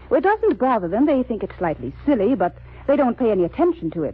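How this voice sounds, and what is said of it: British accent. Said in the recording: “You both have a decided British accent.”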